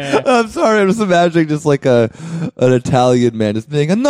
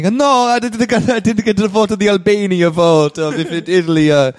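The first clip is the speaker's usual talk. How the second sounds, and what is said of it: Mock Italian accent, sounding Jamaican. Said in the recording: “My Italian accent is very Jamaican”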